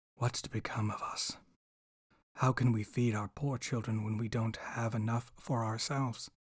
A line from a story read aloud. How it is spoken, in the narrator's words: he sighed and said to his wife